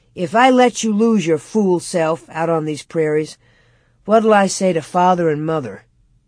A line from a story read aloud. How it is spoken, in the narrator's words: Royal said solemnly